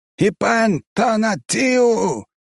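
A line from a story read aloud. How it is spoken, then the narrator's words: Loud shout. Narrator (Russian): выкрикнул он в голос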